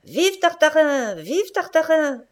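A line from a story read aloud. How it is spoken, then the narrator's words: Crowd shouting. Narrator (French): hurla le peuple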